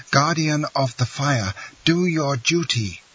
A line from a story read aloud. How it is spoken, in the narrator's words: cried he